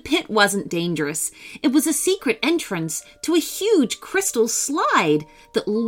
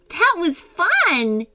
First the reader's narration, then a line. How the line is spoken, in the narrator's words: exclaimed Georgia